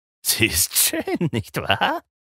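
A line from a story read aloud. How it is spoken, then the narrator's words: Giggling reply. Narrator (German): entgegnete Renfield kichernd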